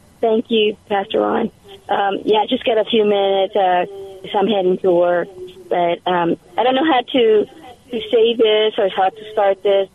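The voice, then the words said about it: Hoarse voice. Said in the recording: “I'm a little hoarse right now”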